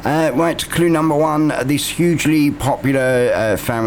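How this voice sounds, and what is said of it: Usual voice. Nothing is said of it.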